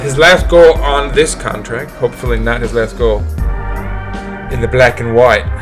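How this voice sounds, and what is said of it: Put-on British accent. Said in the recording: “I always revert to a British accent.”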